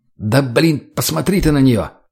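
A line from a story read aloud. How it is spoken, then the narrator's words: Angry. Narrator (Russian): Зло высказался Женя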